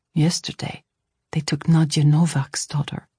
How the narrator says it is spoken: Felipe murmured

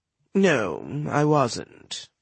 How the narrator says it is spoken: Bost murmured

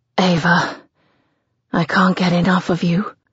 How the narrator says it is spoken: he gasps against my mouth

